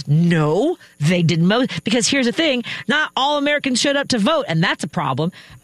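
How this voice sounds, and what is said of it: Yelling, raised angry voice. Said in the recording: “why am I yelling”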